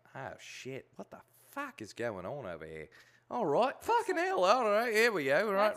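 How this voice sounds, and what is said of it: Put-on Irish accent. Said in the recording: “I'm walking around in an Irish accent”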